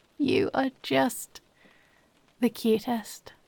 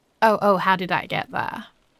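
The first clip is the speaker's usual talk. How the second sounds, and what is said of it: Sarcastic, mock-innocent tone. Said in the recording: “Yes, I am being sarcastic.”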